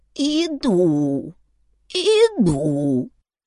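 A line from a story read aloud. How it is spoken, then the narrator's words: Creaky voice. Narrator (Russian): проскрипел Фатик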